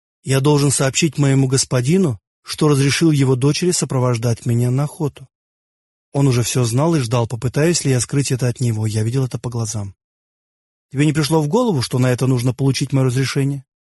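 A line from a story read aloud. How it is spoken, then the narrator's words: Gentle question. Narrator (Russian): мягко спросил он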